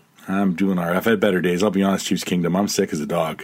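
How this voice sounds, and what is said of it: Crackly, sick-sounding voice. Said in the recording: “you might hear it in my crackly voice once in a while... here I am sounding like a cackly old”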